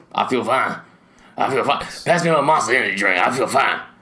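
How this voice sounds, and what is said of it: Imitates another person's voice. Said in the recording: “Your Coach O imitation is as good as I've ever heard.”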